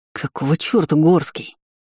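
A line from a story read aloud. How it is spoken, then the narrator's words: Hissing through teeth. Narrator (Russian): Он прошипел сквозь зубы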